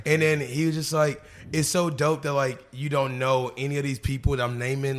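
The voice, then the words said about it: Strained, congested voice. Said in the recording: “my voice is kind of going, like, right now, it's, like, kind of going from sinuses”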